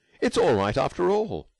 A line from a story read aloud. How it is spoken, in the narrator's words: he cried